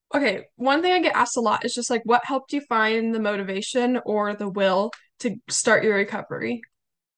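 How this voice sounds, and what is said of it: Slightly hoarse, scratchy voice. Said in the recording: “my voice is a little hoarse. I do currently have COVID ... my voice is still a little bit down ... can hear the scratchiness in my throat”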